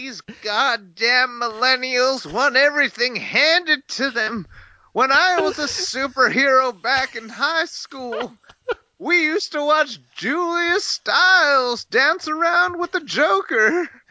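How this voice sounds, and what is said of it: Grumpy old man voice. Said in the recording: “like bitter old Hank Hill if he was a superhero? ... What kind of accent is that? ... It's an old man. ... You sound like a boomer right now”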